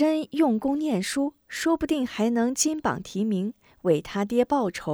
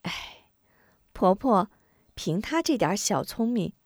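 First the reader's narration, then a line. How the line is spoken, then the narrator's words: Sighing. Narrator (Chinese): 吴夫人叹了口气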